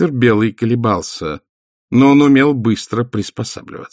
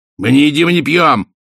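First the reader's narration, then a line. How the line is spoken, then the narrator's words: Sharp bark. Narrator (Russian): рявкнул мистер Белый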